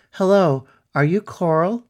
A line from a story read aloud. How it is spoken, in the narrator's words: called out